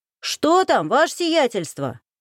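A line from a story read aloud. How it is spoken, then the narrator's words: Shouted through door. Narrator (Russian): крикнул сквозь дверь Гришин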